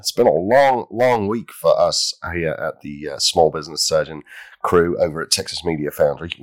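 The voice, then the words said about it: Slightly deeper voice than usual. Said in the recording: “My voice is still a little bit deep. The allergies down here in Texas are kicking in pretty good too.”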